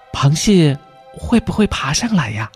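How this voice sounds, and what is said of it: Soft whispered question. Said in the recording (Chinese): “小声的问”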